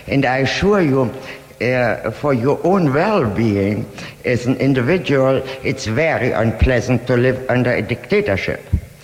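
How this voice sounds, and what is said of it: Strong accent, lovely smoky voice. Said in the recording (Dutch): “wat een heerlijke stem heeft deze vrouw. Je hoort de sigaretten wel terug... ook het sterke accent”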